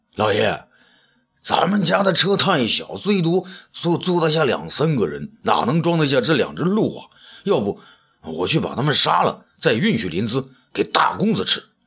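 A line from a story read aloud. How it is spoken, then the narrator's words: Exclaiming. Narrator (Chinese): 阿杜叫了起来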